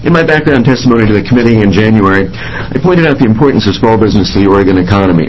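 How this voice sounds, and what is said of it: Impaired, rough speaking voice. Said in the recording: “I apologize for my voice, but I, too, am having horrible allergy trouble today.”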